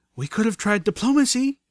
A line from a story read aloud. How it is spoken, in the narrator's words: Velvet cried out as she ran for her life